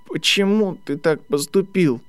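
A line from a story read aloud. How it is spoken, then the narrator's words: Thin hesitant tearful voice. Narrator (Russian): Спросил он, наконец, тонким, нерешительным голосом, смаргивая слезы и стараясь не расплакаться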